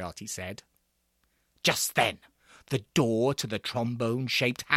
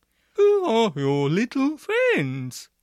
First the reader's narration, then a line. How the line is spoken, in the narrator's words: he asked Floriarty in a very trombony voice